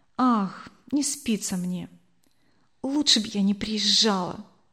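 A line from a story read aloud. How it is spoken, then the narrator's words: Whispered reply. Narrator (Russian): также шепотом ответила она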